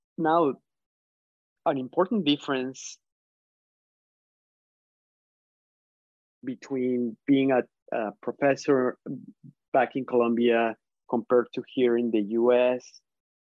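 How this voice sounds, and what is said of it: Colombian Spanish-accented English. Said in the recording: “I have an accent. English is not my first language.”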